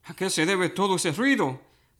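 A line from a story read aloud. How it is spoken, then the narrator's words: Plain. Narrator (Spanish): preguntó Elí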